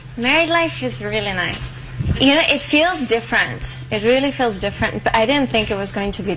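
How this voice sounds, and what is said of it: Fake Spanish accent. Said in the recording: “fake Spanish accent”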